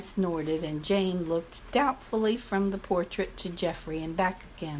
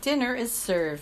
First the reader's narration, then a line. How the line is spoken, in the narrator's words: she called out gaily